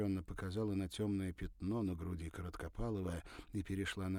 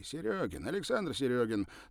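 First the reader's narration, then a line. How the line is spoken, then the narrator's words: Hurried. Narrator (Russian): торопливо сказал тот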